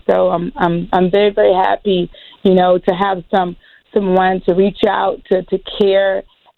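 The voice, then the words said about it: Hoarse voice. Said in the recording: “You can hear that I'm hoarse”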